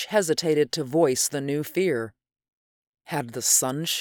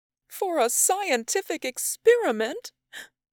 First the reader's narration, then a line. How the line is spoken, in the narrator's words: She sobbed